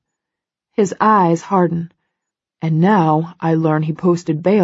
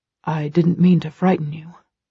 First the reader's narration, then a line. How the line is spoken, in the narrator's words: he whispers